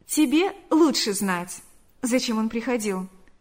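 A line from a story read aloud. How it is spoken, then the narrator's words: Plain. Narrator (Russian): сказала она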